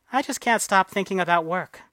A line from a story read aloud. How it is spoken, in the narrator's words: she said